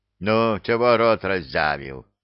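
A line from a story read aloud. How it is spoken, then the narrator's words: Troll's growl. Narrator (Russian): Рыкнул на задрыгу тролль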